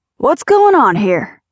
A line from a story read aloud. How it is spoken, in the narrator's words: a loud, booming voice called out